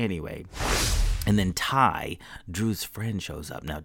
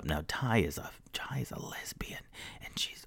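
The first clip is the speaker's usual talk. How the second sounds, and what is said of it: Whispering. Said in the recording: “I'm whispering.”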